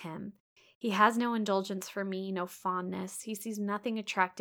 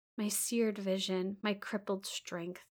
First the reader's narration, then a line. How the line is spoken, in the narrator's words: he murmured regretfully